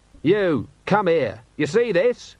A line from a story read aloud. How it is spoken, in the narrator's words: shouted